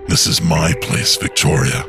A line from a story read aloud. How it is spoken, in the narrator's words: he said in a hollow voice